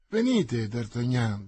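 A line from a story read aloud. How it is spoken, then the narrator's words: Honeyed voice. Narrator (Italian): disse Mazzarino con la sua voce più melata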